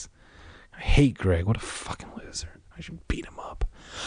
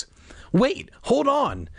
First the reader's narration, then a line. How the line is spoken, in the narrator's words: Greg cried